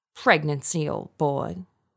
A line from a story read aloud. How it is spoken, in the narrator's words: Roger said